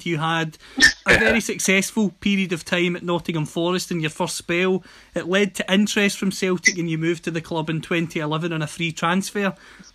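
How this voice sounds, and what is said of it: Scottish accent. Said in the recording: “based on the accent, you can tell that I'm based in Scotland”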